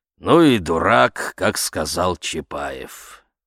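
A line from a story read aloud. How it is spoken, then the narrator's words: Gloomy old man. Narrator (Russian): мрачно старик резюмировал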